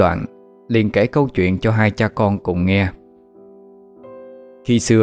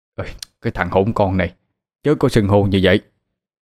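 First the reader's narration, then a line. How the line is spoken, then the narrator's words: Startled shout. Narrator (Vietnamese): Ông Thái giật mình quát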